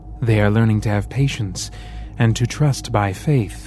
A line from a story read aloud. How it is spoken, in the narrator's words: the second answered